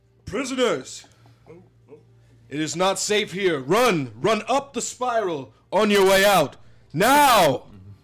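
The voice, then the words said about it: Loud yelling voice. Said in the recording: “make my voice louder ... Sorry, I'm yelling into the mic.”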